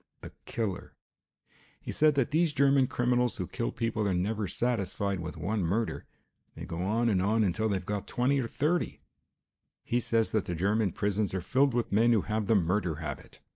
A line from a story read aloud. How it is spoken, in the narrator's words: she choked